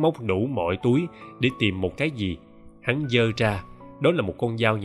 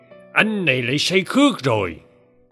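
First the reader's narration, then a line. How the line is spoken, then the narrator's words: Old man's shout. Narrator (Vietnamese): Cụ Bá quát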